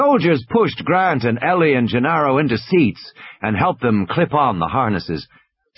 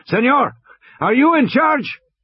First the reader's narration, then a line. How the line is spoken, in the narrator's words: An officer shouted